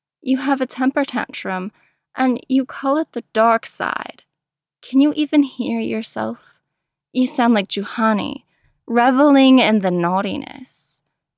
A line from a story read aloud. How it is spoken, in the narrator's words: said with a sigh